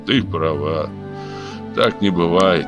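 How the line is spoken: Sad. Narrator (Russian): грустно сказал Коломон

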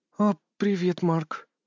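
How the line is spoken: Slightly hoarse female voice. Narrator (Russian): Ее голос тоже был слегка хриплым

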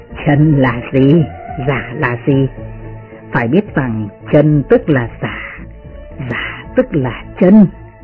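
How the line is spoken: Smiling priest speaking. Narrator (Vietnamese): Đạo sĩ kia mỉm cười và nói

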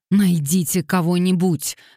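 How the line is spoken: Barked. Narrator (Russian): рявкнул Уэстклифф

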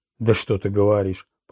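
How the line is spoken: Strained grumbling. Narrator (Russian): проворчал, с трудом садясь

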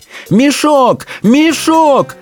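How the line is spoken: Screaming. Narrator (Russian): вопила она

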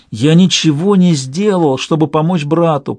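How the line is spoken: Groaning. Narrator (Russian): простонал он

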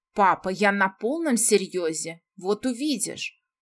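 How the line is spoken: Indignant exclamation. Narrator (Russian): Возмущенно воскликнул Рейган

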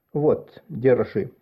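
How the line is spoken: Normal tone. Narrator (Russian): сказал он уже нормальным тоном

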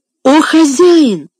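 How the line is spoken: Pleading exclamation. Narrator (Russian): воскликнул Том, с мольбой

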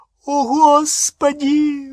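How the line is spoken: Shriek. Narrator (Russian): взвизгнула Гермиона

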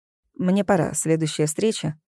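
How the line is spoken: Dry. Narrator (Russian): сухо сказал он

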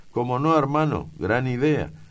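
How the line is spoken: Shouted. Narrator (Spanish): grita

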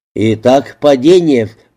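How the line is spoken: Grumbled. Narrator (Russian): пробурчал Фокс

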